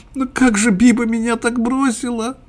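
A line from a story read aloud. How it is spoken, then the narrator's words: Sobbing. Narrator (Russian): всхлипывал он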